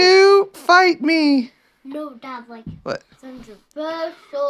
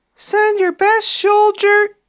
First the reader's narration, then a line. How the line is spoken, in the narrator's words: Goliath would come out and shouted